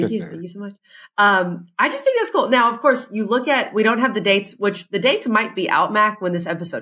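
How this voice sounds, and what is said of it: Usual voice. Nothing is said of it.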